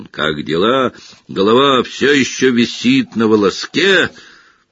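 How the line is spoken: Loud guffaw. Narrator (Russian): Он громко хохотнул

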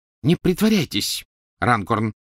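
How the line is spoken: Sharp. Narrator (Russian): резко произнес мистер Уизли

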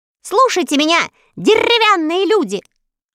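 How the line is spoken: Loud speech. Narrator (Russian): громко начала свою речь

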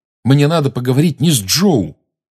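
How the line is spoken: Sharp reply. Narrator (Russian): резко ответил Гарри

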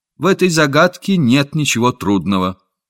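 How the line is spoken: Calm, firm child. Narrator (Russian): Мальчик тотчас же спокойно и твердо сказал

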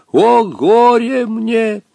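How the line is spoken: Muffled sobbing through wind. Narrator (Russian): глухо донесся сквозь густой туман и нарастающий свист падающего ковра, рыдающий голос Хаттабыча

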